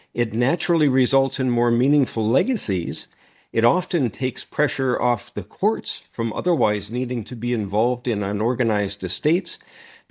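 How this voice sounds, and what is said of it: Canadian accent. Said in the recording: “a distinctly Canadian accent”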